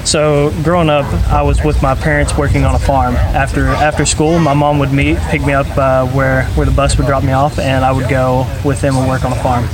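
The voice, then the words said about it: Southern US accent, Tennessee. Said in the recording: “somewhere in the South, right? South. Just listening to your voice. Where's your accent from? ... Tennessee.”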